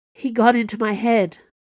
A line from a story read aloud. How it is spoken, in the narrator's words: said Buck